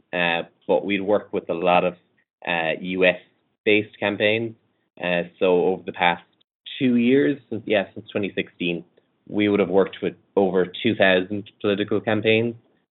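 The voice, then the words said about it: Irish accent. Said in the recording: “my unusual accent ... We're based in Ireland”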